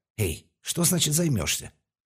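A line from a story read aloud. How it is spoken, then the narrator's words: Indignant question. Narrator (Russian): Возмущенно спросил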